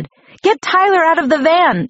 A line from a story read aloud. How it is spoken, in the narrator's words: shouted